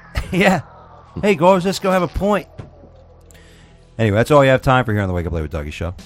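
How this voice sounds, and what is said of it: Bad put-on English accent. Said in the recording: “That was probably the worst English accent ever ... Horrible ... That was terrible ... a Brazilian trying to do a British accent”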